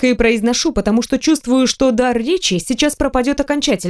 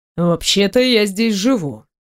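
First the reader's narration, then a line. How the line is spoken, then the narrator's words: Menacing. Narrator (Russian): произносит грозно Пашка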